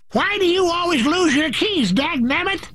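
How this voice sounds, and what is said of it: Old-timey prospector voice. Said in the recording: “talk like a prospector when you're aggravated”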